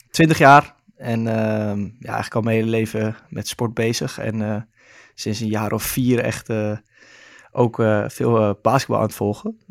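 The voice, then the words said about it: Amsterdam Dutch accent. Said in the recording (Dutch): “geboren en getogen in Amsterdam, zoals je waarschijnlijk wel kan horen aan mijn accent af en toe”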